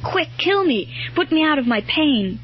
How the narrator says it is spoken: he dropped his sword and cried out in a kind of desperation

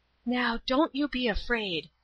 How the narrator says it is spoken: whispered

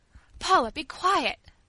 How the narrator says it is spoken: cried Rosa, fearing the terrible consequences of such temerity

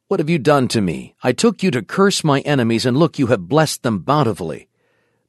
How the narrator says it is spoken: Balak had expected a curse that would fall like a withering plague on Israel, and he angrily exclaimed

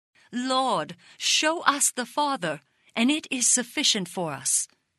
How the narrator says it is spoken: exclaimed Philip

